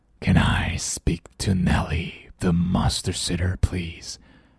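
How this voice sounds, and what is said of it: Deep, scary monster voice. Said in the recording (Chinese): “growls a monster in a deep scary voice ... deep 深沉的，scary 可怕的。这又低又可怕的声音说”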